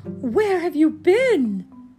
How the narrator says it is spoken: cried

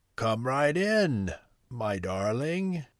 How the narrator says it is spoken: replied a strange, croaky voice

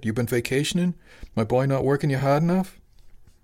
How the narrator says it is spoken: Tony chuckled

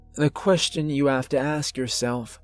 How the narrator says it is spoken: the old man continued, solemnly

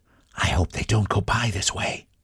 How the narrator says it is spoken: whispered Mrs

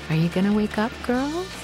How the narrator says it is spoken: say, in that beautiful voice of my mom's

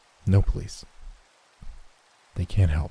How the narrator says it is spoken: he whispered

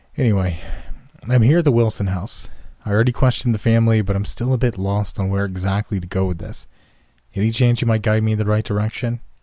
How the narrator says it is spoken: She let out a very audible sigh

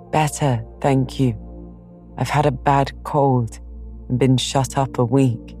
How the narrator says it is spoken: Laurie croaked out as hoarsely as a raven

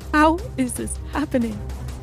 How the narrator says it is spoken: sobbed

